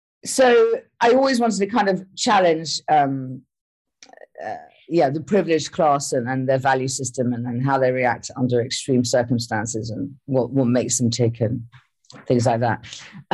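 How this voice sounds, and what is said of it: Posh English accent. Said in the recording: “sound kind of posh ... I did inherit this accent.”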